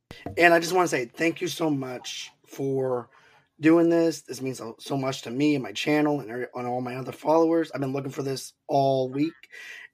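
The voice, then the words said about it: Hoarse, strained voice. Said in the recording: “my voice is going out ... I had a little bit of an issue with laryngitis ... I'm hoarse a little bit”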